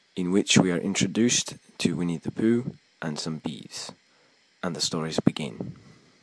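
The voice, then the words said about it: Put-on Scottish accent. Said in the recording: “reading the Winnie the Pooh chapter titles in a Scottish accent ... Don't ask me what type of Scottish accent specifically, because I'm not sure”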